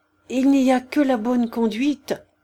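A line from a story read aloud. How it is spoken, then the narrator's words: Muffled stammer. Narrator (French): bégaya-t-il sourdement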